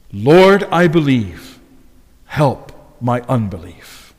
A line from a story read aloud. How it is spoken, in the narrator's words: he cried out, desperate